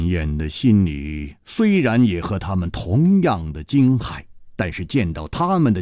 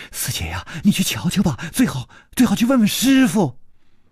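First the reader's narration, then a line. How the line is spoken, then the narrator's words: Pleading. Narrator (Chinese): 有人哀求着说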